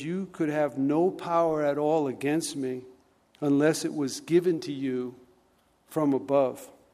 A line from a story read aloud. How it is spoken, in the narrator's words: Jesus just calmly says